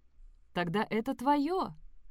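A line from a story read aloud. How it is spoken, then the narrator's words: Joyful exclamation. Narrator (Russian): радостно воскликнула тетя Бет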